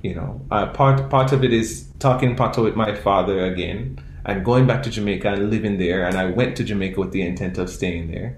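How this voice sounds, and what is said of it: Caribbean accent. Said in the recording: “I don't always talk like this my whole life. I've not had a Caribbean accent my whole life ... talking with my Caribbean accent”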